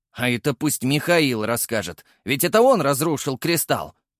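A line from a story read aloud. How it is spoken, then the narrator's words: Growl. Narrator (Russian): Прорычал Артём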